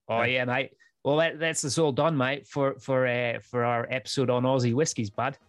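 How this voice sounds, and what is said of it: Put-on Australian accent. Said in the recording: “you want me to do an Aussie accent?”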